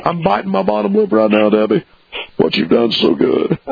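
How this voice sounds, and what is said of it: Deep-voiced Bill Clinton impression. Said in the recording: “it's Bill Clinton ... Great imitation ... it sounds kind of nice to me, you know, but deep”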